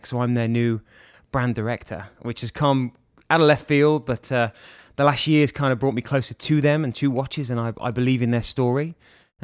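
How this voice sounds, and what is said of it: English accent with American influence. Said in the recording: “where that sexy accent is from ... English. Michigan. ... That's the accent you get from Michigan.”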